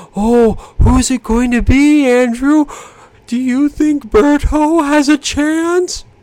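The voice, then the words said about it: Paul Bearer impression. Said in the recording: “to do a Paul Bearer impression”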